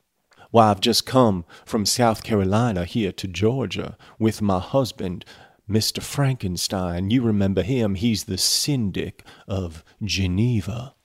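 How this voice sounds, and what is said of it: Put-on Southern US accent. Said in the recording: “you can pronounce it with a southern accent”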